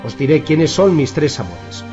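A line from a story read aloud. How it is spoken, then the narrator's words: Plain. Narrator (Spanish): dijo él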